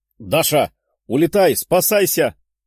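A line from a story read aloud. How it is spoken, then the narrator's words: Shouting. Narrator (Russian): кричала Лиза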